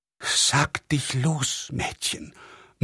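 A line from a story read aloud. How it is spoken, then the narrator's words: Murmuring. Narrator (German): murmelte der Generalvikar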